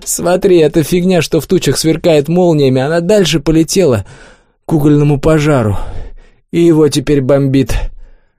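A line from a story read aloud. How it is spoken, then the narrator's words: Nervous laugh, hoarse. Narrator (Russian): Клёпа вдруг нервно хохотнул и хрипло заявил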